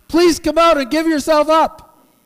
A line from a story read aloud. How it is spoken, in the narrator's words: the man shouting